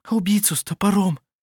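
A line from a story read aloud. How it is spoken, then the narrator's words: Breathless whisper. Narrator (Russian): прошептала она, задыхаясь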